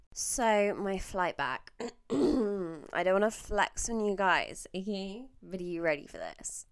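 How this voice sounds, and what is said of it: Put-on Australian accent. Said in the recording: “this is not a South African accent. It's a fucking Australian one, but it's my go-to accent.”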